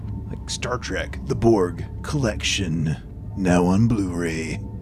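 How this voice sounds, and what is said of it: Dramatic movie-trailer announcer voice. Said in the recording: “Good announcer voice.”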